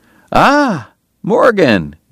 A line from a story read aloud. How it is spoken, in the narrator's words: Doc cried genially